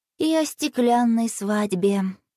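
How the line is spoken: Sighing. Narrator (Russian): вздохнула Василиса

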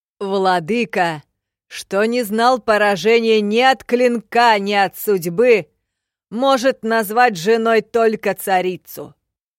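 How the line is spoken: Prince shouting over roaring applause. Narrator (Russian): орал тахарийский принц под оглушительный рокот аплодисментов и возгласов

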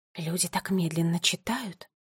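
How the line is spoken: Whisper. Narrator (Russian): прошептала Теа

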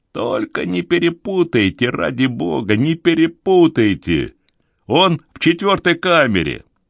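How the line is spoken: Yelling. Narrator (Russian): шериф стал вопить

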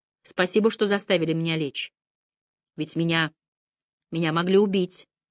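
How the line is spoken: Low half-voice. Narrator (Russian): она сказала вполголоса

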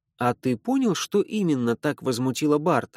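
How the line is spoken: Plain. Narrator (Russian): спросила я

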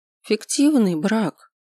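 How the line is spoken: Forced out, then exhaling. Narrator (Russian): выдавил кое-как, следом четко выдыхая

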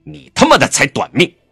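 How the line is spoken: Angry. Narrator (Chinese): 江城怒声道

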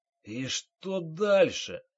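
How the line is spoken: Hoarse, muffled question. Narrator (Russian): хрипло спросил майор, распластанный лицом по столешнице

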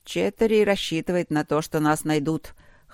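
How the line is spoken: Wry snort. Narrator (Russian): хмыкнул Трот

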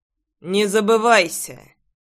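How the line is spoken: Stern rebuke. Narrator (Russian): Строго осадил ее Пол

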